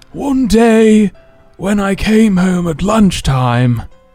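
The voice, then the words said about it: Imitates a nature documentary narrator. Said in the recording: “my best David Attenborough impression of busted lyrics”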